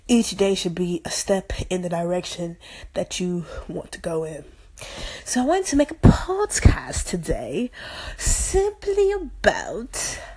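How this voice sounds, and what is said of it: Put-on English accent. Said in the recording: “Still working on the English accent ... Sometimes I randomly break into this English accent”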